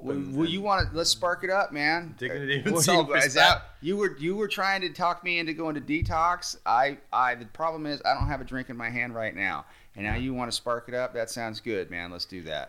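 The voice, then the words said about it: Impersonating a disorganized guy. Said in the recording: “I'm doing my best disorganized guy impersonation”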